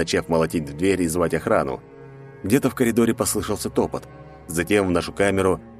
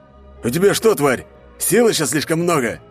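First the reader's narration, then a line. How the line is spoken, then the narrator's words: Harsh bark. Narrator (Russian): рявкнул один из них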